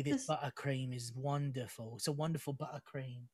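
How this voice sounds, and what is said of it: Put-on British cockney accent. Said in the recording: “I could do a British accent too ... you're a little cockney boy”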